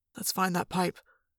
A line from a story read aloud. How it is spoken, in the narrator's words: Jake whispered